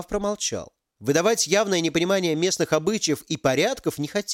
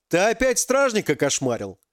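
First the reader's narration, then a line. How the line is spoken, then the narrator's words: Laughing. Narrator (Russian): Парень рассмеялся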